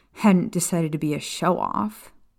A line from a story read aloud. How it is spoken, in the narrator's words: she muttered